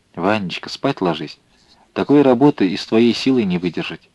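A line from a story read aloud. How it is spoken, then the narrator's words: Quiet woman's voice. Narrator (Russian): тихо произнесла она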